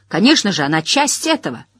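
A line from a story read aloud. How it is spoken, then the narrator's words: Angry speech. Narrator (Russian): сердито сказал он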